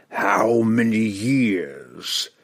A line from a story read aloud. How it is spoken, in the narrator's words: it bellowed victoriously